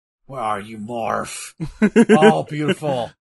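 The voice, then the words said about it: Impersonates a cartoon character's voice. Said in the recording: “Morph. Is that a good impersonation?”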